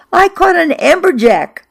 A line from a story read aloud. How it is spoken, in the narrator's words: I shouted from the boat to Fran